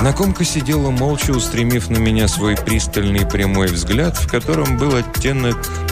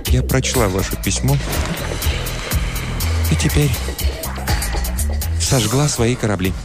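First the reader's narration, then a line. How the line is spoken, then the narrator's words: Quiet voice. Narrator (Russian): Я подумал, что она заплачет, но она сказала тихим голосом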